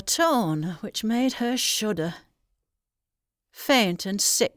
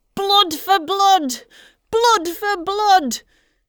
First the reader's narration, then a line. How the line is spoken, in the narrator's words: as he ran he cried